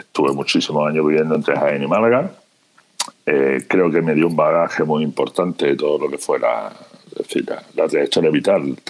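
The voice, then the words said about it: Andalusian Spanish accent. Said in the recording (Spanish): “como mi acento remarca, de un pequeño pueblecito de Andalucía”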